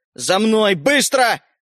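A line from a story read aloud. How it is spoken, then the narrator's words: Barked shout. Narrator (Russian): гаркнул дядя Женя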